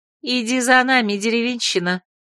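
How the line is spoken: Contemptuous, through teeth. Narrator (Russian): процедила презрительно блондинка

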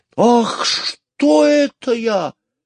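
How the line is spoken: Sudden exclamation. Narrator (Russian): вдруг воскликнул мистер Кудри

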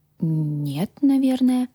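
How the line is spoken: Uncertain. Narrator (Russian): неуверенно произнесла я

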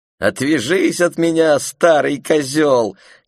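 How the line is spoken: Shouting while laughing. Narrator (Russian): крикнула она, смеясь

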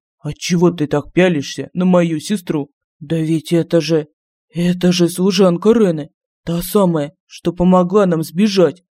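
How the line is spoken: Forced out. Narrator (Russian): выдавил Лорин

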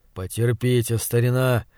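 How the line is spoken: Soothing tone. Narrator (Russian): проговорил успокаивающим тоном

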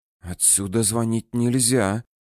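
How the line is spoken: Sudden whisper. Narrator (Russian): неожиданно шепотом сказал Илья Максимович

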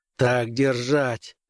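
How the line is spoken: Growl. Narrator (Russian): прорычал Граймс

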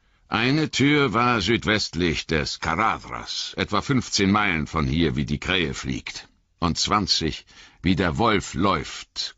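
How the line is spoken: Growling. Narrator (German): knurrte Gandalf

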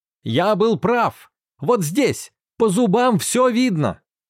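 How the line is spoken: Shouting while running. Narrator (Russian): На бегу он кричал

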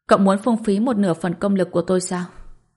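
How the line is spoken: Surprised sighing voice. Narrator (Vietnamese): Hai mắt Nguyệt trợn to vì bất ngờ, rồi lại chợt thở dài, nói

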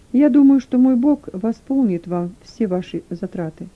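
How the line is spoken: Calm smiling continuation. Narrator (Russian): спокойно улыбаясь, продолжил

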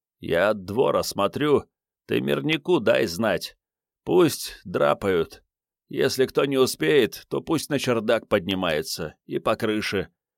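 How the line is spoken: Hoarse wheeze. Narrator (Russian): прохрипел бледный Вано

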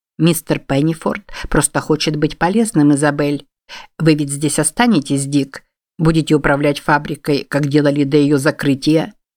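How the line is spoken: Alarmed, quick speech. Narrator (Russian): Встревожившись, Стэнли быстро сказал

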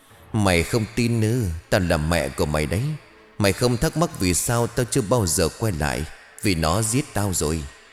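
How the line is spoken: Mocking woman. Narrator (Vietnamese): Bà Thục khóe môi khẽ nhếch lên đầy giễu cợt

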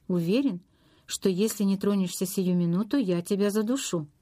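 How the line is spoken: Plain. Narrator (Russian): ответил Ретт

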